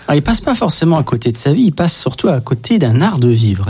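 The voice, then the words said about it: Slight Belgian French accent. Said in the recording (French): “On va entendre un petit accent belge”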